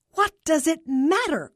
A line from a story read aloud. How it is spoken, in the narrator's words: Carla exclaimed